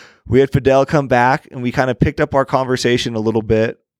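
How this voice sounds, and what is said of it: Usual voice. Nothing is said of it.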